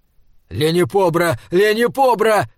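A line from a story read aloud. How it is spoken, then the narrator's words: Shouting into helmet mic. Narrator (Russian): кричал Вапслин в микрофон своего шлема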